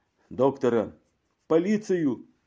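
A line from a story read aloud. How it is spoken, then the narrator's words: Shouting. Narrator (Russian): кричал кто-то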